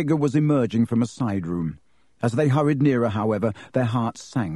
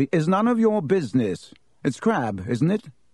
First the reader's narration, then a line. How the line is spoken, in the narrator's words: he said stiffly